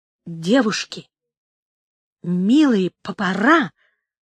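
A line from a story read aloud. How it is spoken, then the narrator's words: Heavy stutter. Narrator (Russian): сказал он, сильно заикаясь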